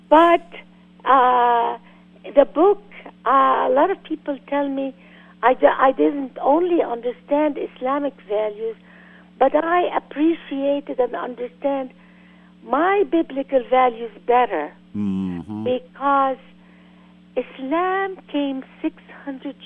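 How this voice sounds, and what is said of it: Speaks with a noticeable accent. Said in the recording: “excuse me for my accent ... I love your accent”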